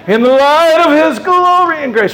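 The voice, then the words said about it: Singing a hymn line in falsetto. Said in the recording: “I can hit a falsetto note.”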